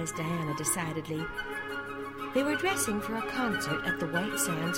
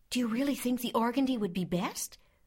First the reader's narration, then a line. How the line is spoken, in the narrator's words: queried Anne anxiously